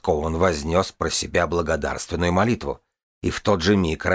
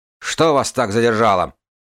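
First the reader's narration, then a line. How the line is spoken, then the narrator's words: Bark. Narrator (Russian): рявкнул Ковенглаз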